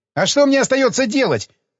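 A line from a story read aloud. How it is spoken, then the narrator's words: Musician snapping back. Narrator (Russian): огрызнулся цимбаларь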